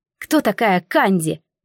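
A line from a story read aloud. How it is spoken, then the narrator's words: Sharp question. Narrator (Russian): резко спросила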